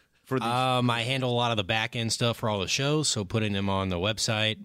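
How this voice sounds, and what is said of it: Smooth radio-announcer voice. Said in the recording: “That's a radio voice.”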